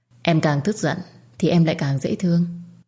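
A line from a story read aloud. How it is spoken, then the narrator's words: Smiling. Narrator (Vietnamese): anh mỉm cười và nói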